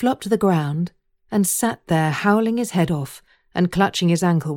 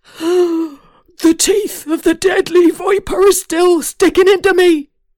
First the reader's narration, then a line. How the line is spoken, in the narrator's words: yelled